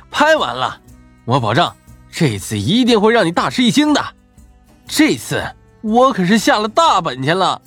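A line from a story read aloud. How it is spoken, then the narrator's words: Laughing loudly. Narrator (Chinese): 大笑着说道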